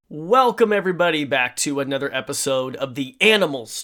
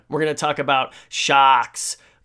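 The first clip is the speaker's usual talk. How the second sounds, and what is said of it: Put-on New England accent. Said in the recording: “I'm trying to do my New England accent right there”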